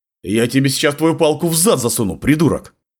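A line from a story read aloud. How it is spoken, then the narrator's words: Barked command. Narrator (Russian): рявкнул я командным тоном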